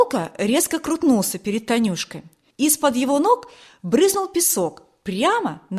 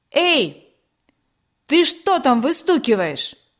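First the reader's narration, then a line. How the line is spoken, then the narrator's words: Loud shout. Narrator (Russian): Громко крикнул он Славику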